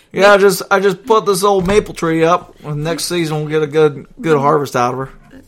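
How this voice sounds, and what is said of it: Attempted Maine accent, not convincing. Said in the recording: “People in the Northeast don't talk like that... I gotta work on my main accent... Probably not right”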